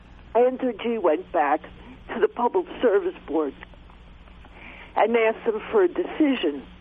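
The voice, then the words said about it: Coughing, voice with a cold. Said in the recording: “who's coughing in Vermont there ... I have a bad cold.”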